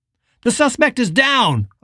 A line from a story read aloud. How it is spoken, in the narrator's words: a voice called out at the end of the walkway